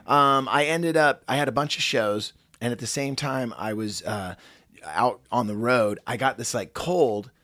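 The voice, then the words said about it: Hoarse, deeper than usual voice. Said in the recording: “my voice is a little sketchy today ... It's a little bassier ... settle in my throat ... when did Barry White start hosting the show?”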